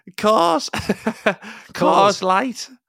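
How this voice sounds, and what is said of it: Put-on Scouse accent. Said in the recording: “Can you do Scouse?”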